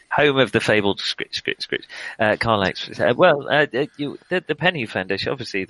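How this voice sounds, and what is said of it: Dreadful generic put-on accent. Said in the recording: “the dreadful accent ... I thought it was a dreadful accent then. Yeah. Dreadful accent, yes. ... This accent is really my generic.”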